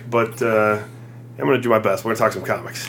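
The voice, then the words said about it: Rough voice, not fully recovered. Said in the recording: “My voice is still kind of eh from being sick”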